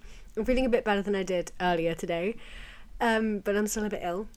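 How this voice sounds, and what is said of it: Croaky, sore-throated voice. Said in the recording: “maybe you can tell in my voice I've still got a bit of a cough, a bit of a sore throat ... my voice is a little bit croaky, a little bit not with it today”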